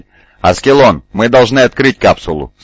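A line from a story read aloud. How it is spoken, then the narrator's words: Plain. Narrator (Russian): сказал он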